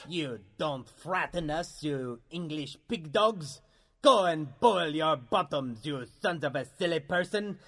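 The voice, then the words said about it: Outrageous exaggerated French accent. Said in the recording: “I'm French. Why do you think I have this outrageous accent”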